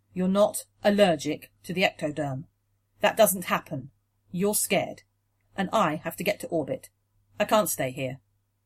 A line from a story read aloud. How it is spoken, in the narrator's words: he said, sadly but firmly